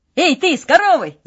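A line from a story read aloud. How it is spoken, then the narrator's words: Shout. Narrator (Russian): закричал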